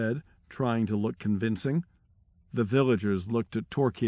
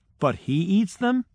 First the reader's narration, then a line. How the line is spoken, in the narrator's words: they asked